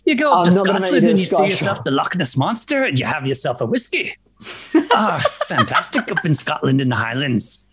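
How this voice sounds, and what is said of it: Put-on Scottish accent, sounds Irish. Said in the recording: “Accent. ... I think it sounded kind of Irish.”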